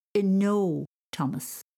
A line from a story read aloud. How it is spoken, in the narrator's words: she said firmly